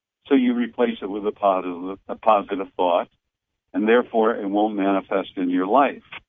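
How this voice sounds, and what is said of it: Boston accent. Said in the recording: “I'm using my Boston accent”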